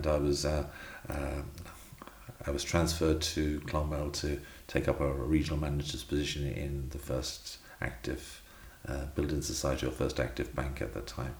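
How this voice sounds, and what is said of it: Slight London-tinged accent. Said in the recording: “your listeners will detect a slight accent ... I had a spell in London”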